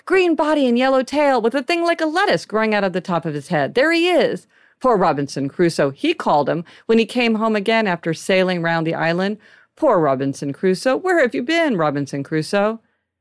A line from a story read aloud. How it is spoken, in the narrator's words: cried Scrooge